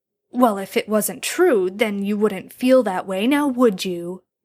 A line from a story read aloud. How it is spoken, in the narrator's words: Jared snarled